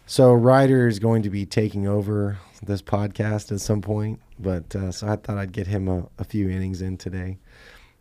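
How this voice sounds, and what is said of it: Rough, sick-sounding voice. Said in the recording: “Excuse my voice. We're gonna battle through this. ... Please don't get me sick.”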